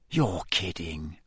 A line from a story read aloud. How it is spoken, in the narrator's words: Ron whispered